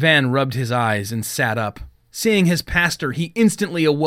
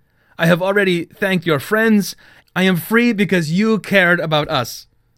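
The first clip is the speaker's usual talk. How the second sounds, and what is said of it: Thick foreign accent. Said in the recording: “he said in a thick accent”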